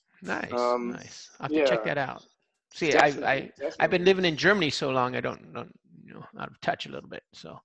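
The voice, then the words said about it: Slight German accent in English. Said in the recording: “you have that like a little bit of a German accent now ... you definitely don't sound like you're from California anymore”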